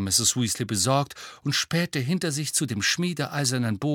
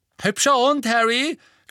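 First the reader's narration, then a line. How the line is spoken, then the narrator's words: Big boy calling out. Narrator (German): rief ein großer Junge mit Rasterlocken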